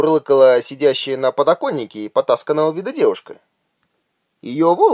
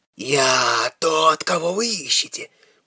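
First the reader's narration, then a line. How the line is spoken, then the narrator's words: Stoned whisper. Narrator (Russian): шепнул обдолбанный толкач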